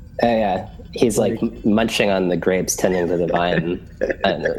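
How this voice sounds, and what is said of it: Usual voice. Nothing is said of it.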